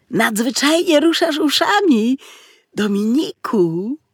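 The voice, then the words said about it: Admiring whisper. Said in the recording (Polish): “Szeptał z podziwem”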